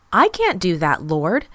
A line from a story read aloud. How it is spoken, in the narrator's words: Peter exclaimed